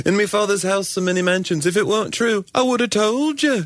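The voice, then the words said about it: Imitated English Liverpool-style accent. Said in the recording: “Jesus would always have an English accent... why does Jesus always sound like John Lennon?”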